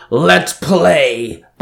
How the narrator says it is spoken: Banjin roared

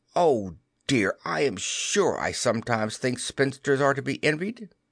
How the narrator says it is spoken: When she sat down to a basket full of their stockings, every heel with a hole in it, she would exclaim

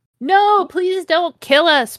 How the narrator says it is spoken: pleaded Vampire

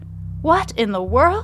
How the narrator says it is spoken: She exclaims

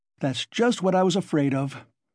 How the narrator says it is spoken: Porfiry cried warmly, and, as it seemed, involuntarily

